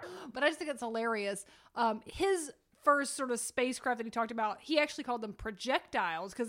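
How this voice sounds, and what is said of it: Usual voice. Nothing is said of it.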